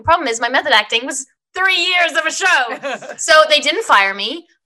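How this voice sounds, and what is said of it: Faint Australian accent. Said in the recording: “I could hear your Australian accent very, very, very, very slightly, faint in there.”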